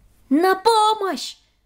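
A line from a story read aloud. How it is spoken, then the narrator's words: Shouting. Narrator (Russian): закричала Хедвиг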